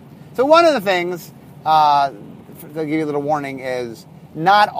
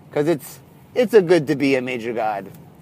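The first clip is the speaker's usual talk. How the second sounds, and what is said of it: Bad attempt at French accent. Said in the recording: “That was a horrible accent. ... I was trying to do Mel Brooks. It's supposed to be a French accent, I guess, but that was not a French accent. ... woefully, woefully bad accent.”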